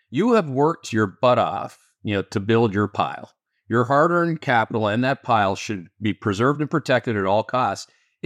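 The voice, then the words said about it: Canadian accent. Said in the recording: “with my Canadian accent”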